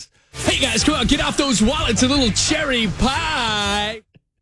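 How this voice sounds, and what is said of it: Hyped DJ announcer voice. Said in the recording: “DJ voice”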